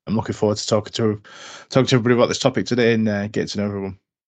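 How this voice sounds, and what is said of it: Slight Yorkshire accent. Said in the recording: “UK-based, if you can pick up the slightly Yorkshire twang in my accent.”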